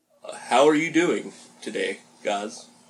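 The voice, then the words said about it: Put-on podcast host voice. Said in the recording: “podcast voice ... It's not getting the energy”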